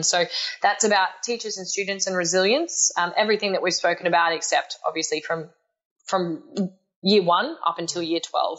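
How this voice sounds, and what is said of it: Australian accent. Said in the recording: “when I say it with my Australian accent, people think I say Carmine”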